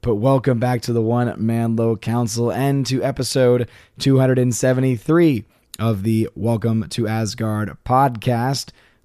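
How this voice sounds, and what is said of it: Strained, unwell-sounding voice. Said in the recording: “my voice is not doing well this evening, as you can tell”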